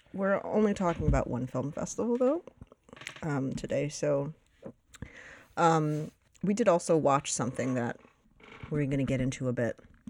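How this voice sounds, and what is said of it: Deep, tired radio-like voice. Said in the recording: “Hence my sexy voice. ... My radio voice. ... I'm just exhausted. ... Whole body is exhausted, and it's apparently it's taken issue with my, ... my voice box.”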